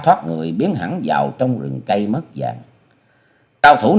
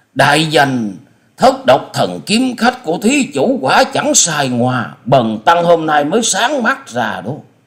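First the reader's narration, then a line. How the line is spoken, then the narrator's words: Excited exclamation. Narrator (Vietnamese): Diên Ngữ đại sư không dằn được tâm tình khích động, chép miệng reo lên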